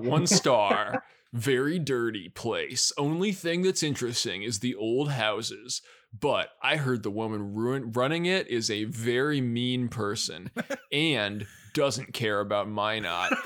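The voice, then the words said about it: Reads in a dramatic voice. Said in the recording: “read this in a dramatic voice.”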